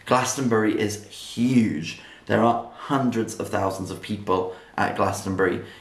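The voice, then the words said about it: Voice sounds off, not normal. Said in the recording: “I'm sorry for my voice today. Hopefully it'll be back to normal tomorrow.”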